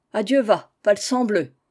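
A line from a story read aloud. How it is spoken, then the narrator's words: Mason exclaiming. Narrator (French): s'écria le maçon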